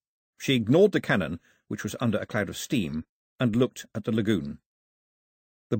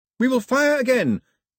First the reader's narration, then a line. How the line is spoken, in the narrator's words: Pilou yelled in the confusion